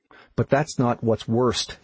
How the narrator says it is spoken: he said

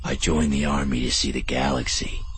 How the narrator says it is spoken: he whispered

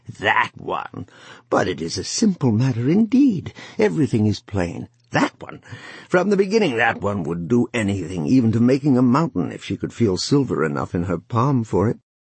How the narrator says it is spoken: she laughed again, a cackling, and she said easily

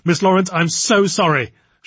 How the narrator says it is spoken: she said hastily

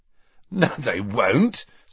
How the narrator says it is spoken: said Ron, who, like Harry, was laughing

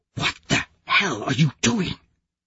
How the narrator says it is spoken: I whisper

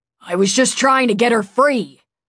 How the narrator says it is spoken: Tuve snapped

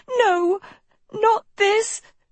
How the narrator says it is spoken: Sophie gasped

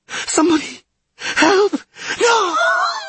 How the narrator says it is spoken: Dagoland wheezed, saliva dripping copiously from his mouth

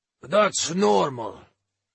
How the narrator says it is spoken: Krim said

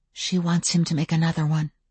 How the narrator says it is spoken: I whispered

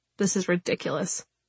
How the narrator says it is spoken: Morgan mutters

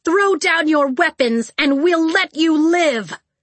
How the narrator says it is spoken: shouted

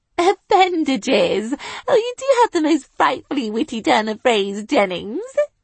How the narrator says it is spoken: I giggled

